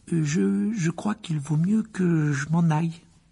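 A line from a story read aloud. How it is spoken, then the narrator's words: Stammered. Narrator (French): balbutia-t-il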